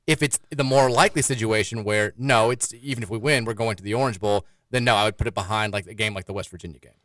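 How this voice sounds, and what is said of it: South Carolina Southern US accent. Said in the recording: “that South Carolina accent sounds just like old George Wallace”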